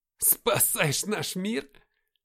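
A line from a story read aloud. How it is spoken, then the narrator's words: Question, then loud laughter. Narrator (Russian): спросил я и захохотал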